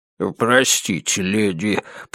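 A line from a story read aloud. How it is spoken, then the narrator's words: Mumbling. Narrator (Russian): пробормотал он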